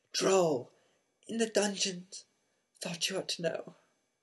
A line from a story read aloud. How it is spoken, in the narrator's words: gasped